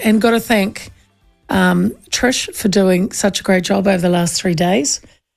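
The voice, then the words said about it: Slightly hoarse, recovering voice. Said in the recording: “I still sound, I think, a little bit, kind of my voice isn't back completely ... it was a sick household”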